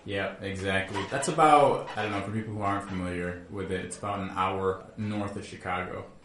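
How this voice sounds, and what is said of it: Midwestern American accent. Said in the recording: “Normally people will point that out from my Midwestern accent ... short O.”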